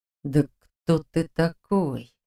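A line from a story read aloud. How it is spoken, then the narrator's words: Through teeth, suppressed rage. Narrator (Russian): процедил Дементьев, с трудом подавляя бессильную злобу, клокочущую внутри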